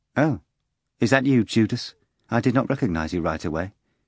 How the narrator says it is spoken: her face expressing cold annoyance, and replied dryly in Greek

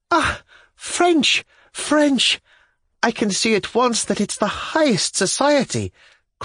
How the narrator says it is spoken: cried Marya Timofyevna

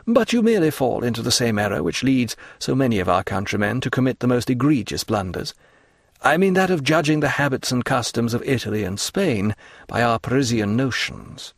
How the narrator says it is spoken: returned Franz calmly

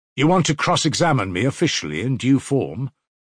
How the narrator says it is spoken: Raskolnikov asked sharply

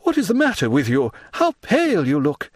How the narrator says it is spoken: cried Debray

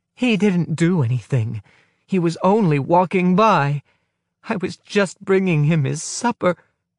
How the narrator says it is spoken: His wife moaning

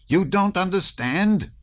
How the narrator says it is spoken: shouted the prince

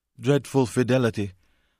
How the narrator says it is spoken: the landlady repeated sullenly

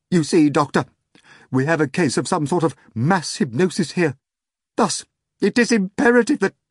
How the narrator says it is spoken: evidently burning up with shame and embarrassment, stuttered

